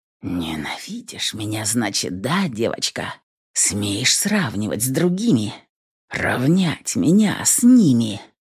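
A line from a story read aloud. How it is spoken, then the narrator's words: Halting, excited whisper. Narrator (Russian): Сбивчивый шепот подсказал, что и сам истязатель тоже здорово возбужден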